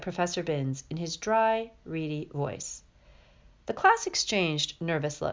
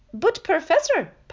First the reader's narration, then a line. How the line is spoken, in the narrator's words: piped up Parvati Patil